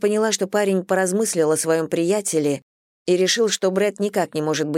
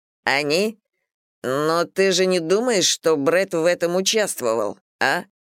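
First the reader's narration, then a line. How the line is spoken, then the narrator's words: Unpleasant tone. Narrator (Russian): спросил Стив неприятным тоном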